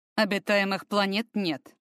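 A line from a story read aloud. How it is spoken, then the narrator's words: Icy tone. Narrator (Russian): Ибо Фортом таким же ледяным тоном добавил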